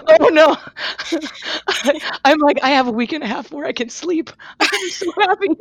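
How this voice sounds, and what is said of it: Worn-out, strained voice. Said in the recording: “your voice isn't. ... my voice is done.”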